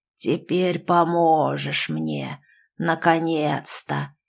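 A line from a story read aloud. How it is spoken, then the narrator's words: Creature's hoarse rasp. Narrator (Russian): прохрипело существо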